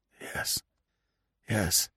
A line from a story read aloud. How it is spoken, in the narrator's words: came hoarsely